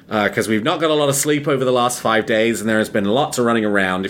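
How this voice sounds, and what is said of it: Tired, exhausted voice. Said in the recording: “exhausted. You might be able to hear it in my voice”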